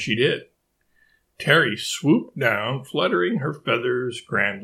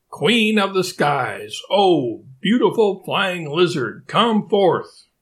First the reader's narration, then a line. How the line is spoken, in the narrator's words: asked and called out